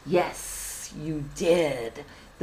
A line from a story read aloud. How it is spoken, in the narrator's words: giant figure hissed